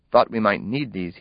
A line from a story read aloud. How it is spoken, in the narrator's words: he said